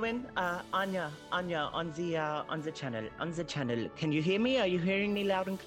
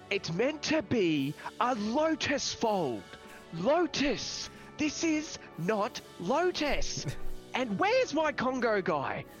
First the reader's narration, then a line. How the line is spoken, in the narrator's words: once he knows he's far enough, he'll yell out